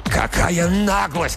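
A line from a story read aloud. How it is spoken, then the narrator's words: Straining shout. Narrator (Russian): кричал, вырываясь, Макдаф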